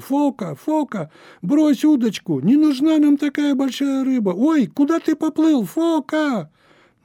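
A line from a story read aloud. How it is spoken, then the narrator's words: Frightened shouting. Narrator (Russian): уже не радостно, а испуганно хранители очага кричали другу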